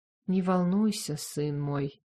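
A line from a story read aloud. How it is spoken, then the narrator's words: Soft, gentle reply. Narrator (Russian): мягко отозвалась верховная жрица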